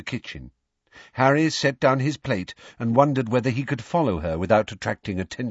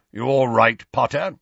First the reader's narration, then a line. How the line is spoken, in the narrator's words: grunted Moody